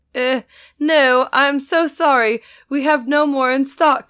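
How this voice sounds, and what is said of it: Attempted Belgian accent, sounds half British. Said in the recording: “these comical Belgian accents ... That's not a Belgian accent. ... That was like half British.”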